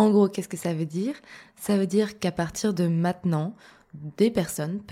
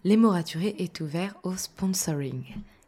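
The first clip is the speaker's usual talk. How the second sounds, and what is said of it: Slight put-on English accent. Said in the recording (French): “petit avec mon petit accent anglais”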